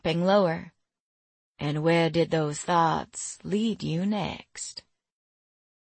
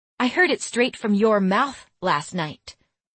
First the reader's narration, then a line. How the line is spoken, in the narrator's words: I snapped